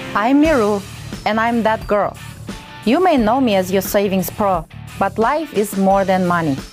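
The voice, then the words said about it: Russian accent. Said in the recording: “girl from Kazakhstan with a Russian accent”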